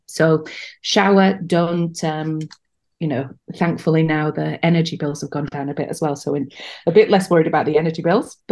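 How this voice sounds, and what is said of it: British accent. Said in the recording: “my accent betrays the fact that I'm British”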